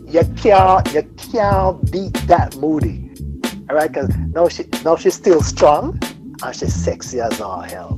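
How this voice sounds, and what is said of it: Strong accent coming through. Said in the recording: “you know when I get excited, the accent comes out all the way”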